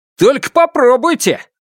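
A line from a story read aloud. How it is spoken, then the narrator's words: Sudden exclamation. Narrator (Russian): внезапно воскликнул голос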